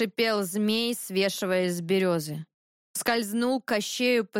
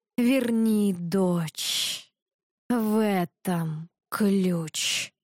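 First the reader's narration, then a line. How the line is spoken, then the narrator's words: Hissing. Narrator (Russian): прошипел змей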